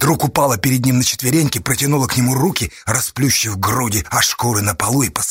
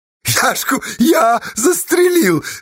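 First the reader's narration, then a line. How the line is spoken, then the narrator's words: Cheerful jealous shout. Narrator (Russian): весело и ревниво крикнула Асташа в ответ, загораясь ее огнем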